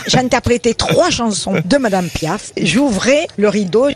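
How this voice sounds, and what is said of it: Slight Avignon southern French accent. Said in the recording (French): “Elle parle avec son petit accent d'Avignon”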